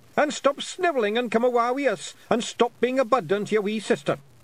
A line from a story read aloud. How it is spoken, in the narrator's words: shouted Rob Anybody